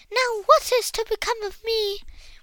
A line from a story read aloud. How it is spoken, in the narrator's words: wailed the forlorn princess